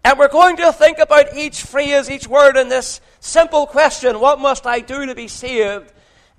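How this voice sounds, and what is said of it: Irish accent. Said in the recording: “you can tell from my accent that I'm not from England, I'm from Ireland”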